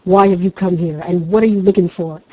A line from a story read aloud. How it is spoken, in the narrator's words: asked Great January crossly